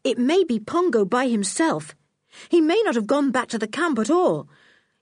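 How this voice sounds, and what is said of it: Urgent, pressing voice. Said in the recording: “in an urgent voice”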